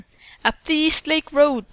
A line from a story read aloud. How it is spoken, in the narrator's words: Bertha exclaimed